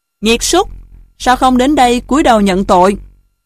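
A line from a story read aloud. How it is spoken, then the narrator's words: Loud scolding. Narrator (Vietnamese): Chức nữ quát to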